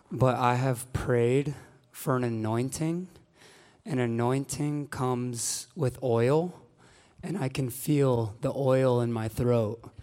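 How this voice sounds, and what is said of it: Hoarse, cracking, fading voice. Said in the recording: “sounding like a middle schooler tonight and my voice cracking. I am losing my voice.”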